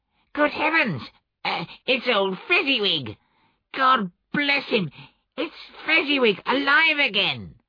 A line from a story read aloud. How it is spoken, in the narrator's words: Scrooge cried excitedly